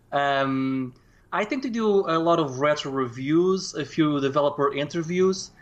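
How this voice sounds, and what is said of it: Portuguese accent. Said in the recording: “I'm from Portugal, hence the very odd accent.”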